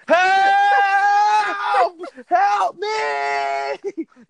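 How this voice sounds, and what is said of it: Screaming at top of lungs. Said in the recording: “and I'm screaming at the top of my lungs”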